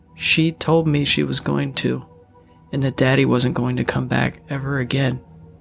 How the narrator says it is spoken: Layla said, her voice breaking towards the end

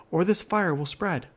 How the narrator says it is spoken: shouted Averall

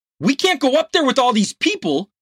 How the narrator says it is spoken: Ricardo yelled in near panic

